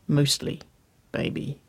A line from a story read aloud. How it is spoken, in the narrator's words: she murmured